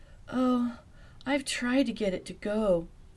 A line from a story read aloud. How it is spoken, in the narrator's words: Velma moaned